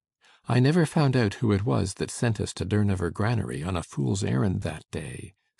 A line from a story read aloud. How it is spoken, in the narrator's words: said Donald in his undulating tones